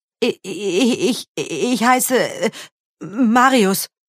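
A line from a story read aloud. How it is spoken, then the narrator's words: Frightened boy stammering. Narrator (German): stammelte der Junge erschrocken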